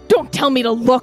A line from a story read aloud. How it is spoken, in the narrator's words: the recycler snapped